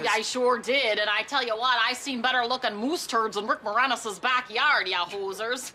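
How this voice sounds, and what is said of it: Exaggerated cartoonish Canadian accent. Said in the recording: “We're Canadian. ... You sound like a cartoon character.”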